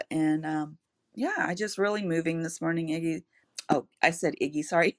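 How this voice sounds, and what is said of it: Choked-up, emotional voice. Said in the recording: “little choked up”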